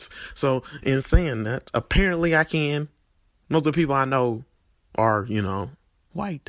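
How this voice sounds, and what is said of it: Country Tennessee accent. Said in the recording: “You can hear hear it from my accent how country I am, and when, especially when I utter some words.”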